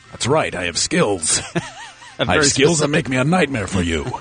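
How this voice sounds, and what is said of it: Poor Liam Neeson impression. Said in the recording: “That doesn't sound anything like Liam Neeson. ... you do your Liam Neeson. ... talking crap about my impersonations. ... That wasn't good.”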